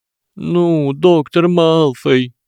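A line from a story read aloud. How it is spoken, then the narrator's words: Whined. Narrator (Russian): прохныкал Гарри Поттер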